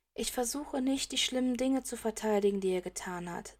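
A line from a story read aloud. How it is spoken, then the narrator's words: Slow sighing. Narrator (German): sagt Luna mit einem langsamen Seufzer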